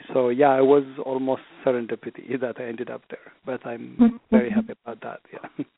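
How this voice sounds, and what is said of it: Slight French-tinged Ethiopian accent. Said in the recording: “you can get a touch of French accent when I speak English. Also, it's not a purely Ethiopian accent.”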